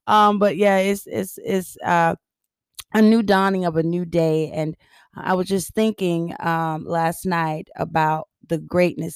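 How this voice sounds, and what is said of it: Raspy, harsh morning voice. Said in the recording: “I know I'm a little raspy. My voice is typically a little harsher in the morning. Harsher.”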